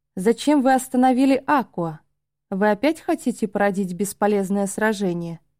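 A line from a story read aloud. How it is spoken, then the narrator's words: Cold reply. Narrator (Russian): холодно отозвался Ора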